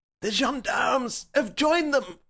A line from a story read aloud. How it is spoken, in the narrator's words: cried the professor